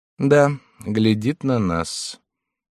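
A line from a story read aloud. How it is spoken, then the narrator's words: Indifferent, flat voice. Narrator (Russian): Виконт … сказал равнодушным, безразличным голосом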